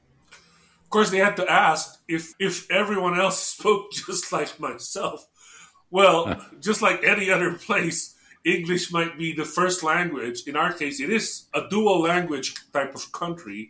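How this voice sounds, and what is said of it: Philippine English accent, trilled R's. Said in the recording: “We do have a certain accent, and it's actually a Philippine accent ... it is a Philippine accent. So sometimes they're trilling R's, and like fries and rice sound alike.”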